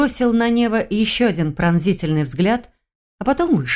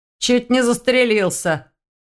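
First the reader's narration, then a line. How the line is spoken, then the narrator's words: Snort. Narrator (Russian): хмыкнул Ваня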